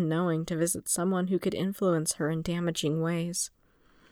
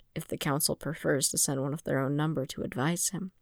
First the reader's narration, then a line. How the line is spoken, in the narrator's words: he murmured